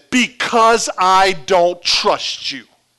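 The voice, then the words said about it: Very loud quoted line. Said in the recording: “She said a few words very loudly ... In a very loud voice”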